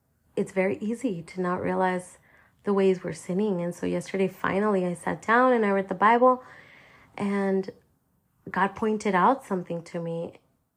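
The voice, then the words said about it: Voice affected by a cold. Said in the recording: “got a cold in the midst of it. And that's why my voice sounds like this. I'm at the end of it.”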